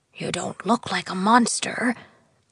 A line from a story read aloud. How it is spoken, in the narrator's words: Prince Beldegard whispered to her